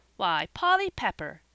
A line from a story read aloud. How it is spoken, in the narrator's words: exclaimed Joel, not minding his own upset